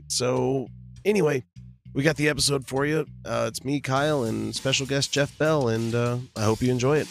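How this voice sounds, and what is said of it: Hoarse, strained voice. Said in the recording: “my voice is completely shredded from doing a concert last night”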